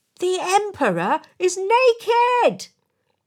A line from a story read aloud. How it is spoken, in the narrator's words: a small child in the crowd shouted out